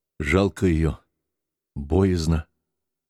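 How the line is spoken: Dull, muffled. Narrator (Russian): Петр глухо сказал

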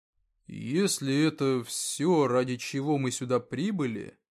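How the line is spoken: Uncertain start. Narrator (Russian): как-то неуверенно начал Вектор

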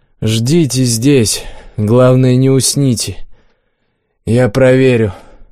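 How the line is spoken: Tired declaration. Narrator (Russian): Макс устало заявил

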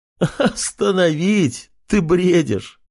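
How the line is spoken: Laughing aloud. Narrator (Russian): в голос рассмеялся худой Шелец

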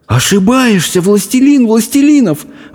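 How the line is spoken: Breathless exhale. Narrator (Russian): выдохнул Абдулла

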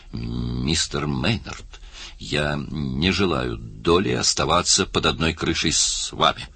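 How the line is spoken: Stammering with fury. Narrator (Russian): проговорила, чуть заикаясь от ярости

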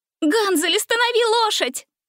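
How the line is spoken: Shouted. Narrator (Russian): крикнула она

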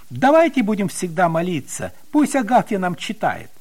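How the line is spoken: Exclamation. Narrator (Russian): Петя даже воскликнул

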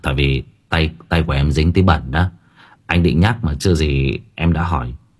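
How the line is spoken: Startled evasive laugh. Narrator (Vietnamese): Hồng khẽ giật mình, đoạn cười lảng

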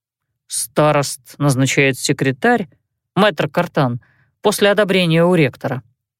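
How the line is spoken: Quiet reply. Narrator (Russian): ответил Пьер негромко

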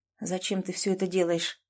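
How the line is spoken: Quiet question. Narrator (Russian): спросил тихо

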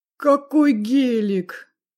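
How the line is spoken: Drawn-out, admiring. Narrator (Russian): протянул Игорь с восхищением

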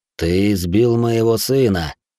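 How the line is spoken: Through gritted teeth. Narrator (Russian): сказал сквозь зубы Хэй-Хи

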